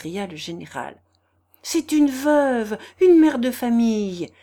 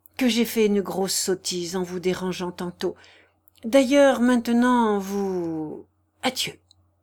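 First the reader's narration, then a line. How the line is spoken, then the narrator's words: Prince murmuring. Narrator (French): murmura le prince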